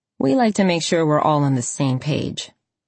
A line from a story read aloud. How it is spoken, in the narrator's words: Kay said dryly